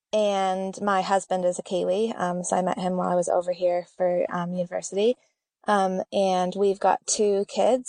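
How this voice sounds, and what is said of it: American accent. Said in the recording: “I actually am from the States, if you notice an accent”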